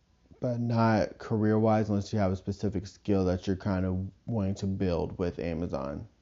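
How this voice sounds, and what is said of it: Weird-sounding voice, throat trouble. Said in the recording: “I'm sorry if my throat, my voice sounds weird. ... I don't know what's going on with my throat.”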